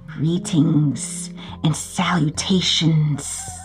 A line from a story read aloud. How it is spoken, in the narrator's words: hissed Gregory to Papa Bois